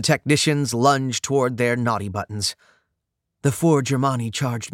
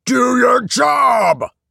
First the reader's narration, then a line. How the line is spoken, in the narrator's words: Still growling in pain from the arrow in his leg, Leader Guy yelled